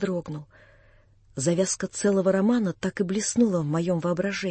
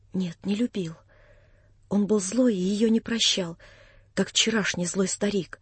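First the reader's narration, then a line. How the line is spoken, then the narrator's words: Quiet, almost whispering. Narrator (Russian): проговорила она тихо, совсем почти шепотом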